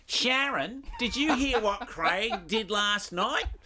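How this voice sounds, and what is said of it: Put-on broad Australian accent. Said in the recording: “Aussies, and I overheard this conversation like ... Do we really sound like that? So it does stick out like the proverbial dog's balls”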